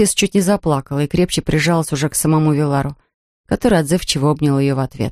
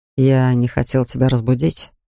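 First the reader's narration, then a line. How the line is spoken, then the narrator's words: Soft. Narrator (Russian): сказал он мягко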